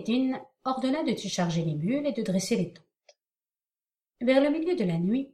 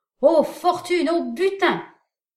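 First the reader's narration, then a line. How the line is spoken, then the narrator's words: Shouted. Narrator (French): Kemal ed-Din leur cria de son côté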